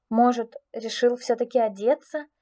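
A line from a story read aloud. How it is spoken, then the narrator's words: Uncertain guess. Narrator (Russian): неуверенно предположила я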